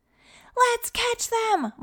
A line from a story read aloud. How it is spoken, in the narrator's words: Micah and Jonathan yelled in unison